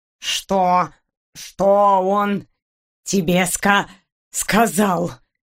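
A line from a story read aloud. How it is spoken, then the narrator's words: Breathless moaning. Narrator (Russian): Едва дыша, простонал агент 013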